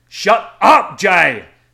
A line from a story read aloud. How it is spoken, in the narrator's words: MC yelled